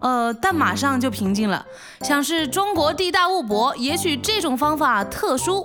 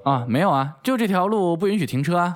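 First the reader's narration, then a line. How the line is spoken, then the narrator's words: Flat, indifferent. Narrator (Chinese): 淡淡的说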